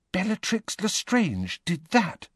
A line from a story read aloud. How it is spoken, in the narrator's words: whispered Hermione, horrified